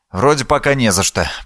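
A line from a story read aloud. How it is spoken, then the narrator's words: Muttering. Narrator (Russian): пробормотал я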